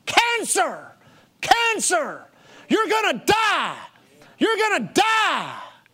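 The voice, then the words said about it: Screaming, shouted voice. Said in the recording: “hear in my mind this voice... it was screaming in my mind”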